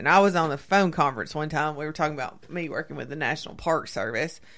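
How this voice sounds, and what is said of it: Southern US accent. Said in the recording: “they heard my accent ... my Southern accent”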